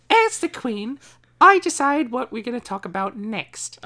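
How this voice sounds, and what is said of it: Impression of the Queen. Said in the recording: “We're doing impersonations... How about you talk in that accent this whole segment?... In Her Majesty the Queen's voice?”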